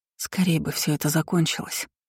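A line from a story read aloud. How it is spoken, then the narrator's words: Whisper into silence. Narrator (Russian): прошептала в тишину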